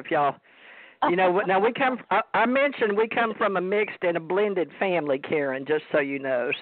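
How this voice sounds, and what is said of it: Strong Southern US accent. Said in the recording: “you're really talking Southern right now. You got like super Southern. ... It's way country.”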